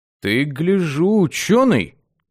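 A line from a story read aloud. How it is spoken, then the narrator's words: Respectful drawl. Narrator (Russian): уважительно протянул парень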